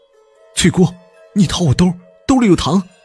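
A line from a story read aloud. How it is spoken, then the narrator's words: Shouting, suppressing nausea. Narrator (Chinese): 我强忍着恶心， 冲着小翠就喊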